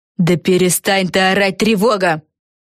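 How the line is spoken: Barked. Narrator (Russian): рявкнула Фелисити Бет

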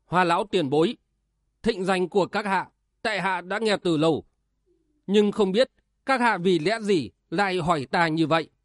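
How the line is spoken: Through gritted teeth. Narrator (Vietnamese): Triển Bạch nghiến răng gằn giọng

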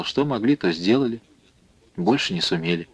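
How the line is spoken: Quiet, with a smirk. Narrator (Russian): Марья Николаевна усмехнулась, негромко ответила

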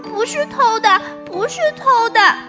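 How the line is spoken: Children clamoring. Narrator (Chinese): 小朋友们又叫又嚷

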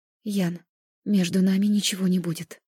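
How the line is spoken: Breathed out. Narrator (Russian): выдохнула я

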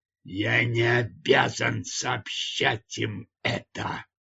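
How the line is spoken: Growling. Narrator (Russian): прорычал Хован Дью

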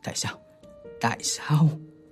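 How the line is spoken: Stunned muttering. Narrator (Vietnamese): Hắn chết lặng, tự lẩm bẩm

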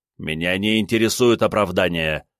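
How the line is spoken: Growl. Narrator (Russian): рыкнул я

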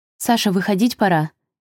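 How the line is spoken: Mother's nervous distant shout. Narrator (Russian): нервно крикнула из прихожей мама

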